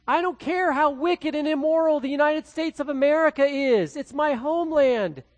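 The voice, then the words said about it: Midwestern American accent. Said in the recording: “I have a Midwestern accent”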